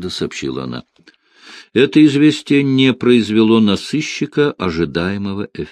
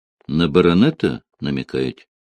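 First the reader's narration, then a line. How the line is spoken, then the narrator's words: Plain. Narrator (Russian): спросил Барбос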